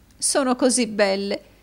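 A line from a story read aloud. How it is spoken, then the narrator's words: Sobbing. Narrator (Italian): disse la signora Kenwigs, singhiozzando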